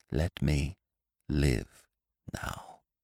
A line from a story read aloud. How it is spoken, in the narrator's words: she whispered